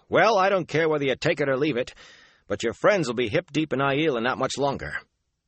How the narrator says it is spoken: Matt barked

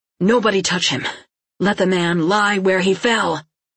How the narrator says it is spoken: Suddenly Erland said, his voice harsh and wild

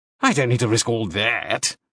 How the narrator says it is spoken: Lord Aback said scornfully

